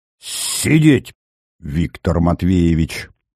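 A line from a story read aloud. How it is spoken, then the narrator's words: Sharp, through gritted teeth. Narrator (Russian): резко процедил Зверев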